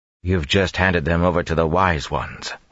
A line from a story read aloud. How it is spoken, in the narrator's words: he growled back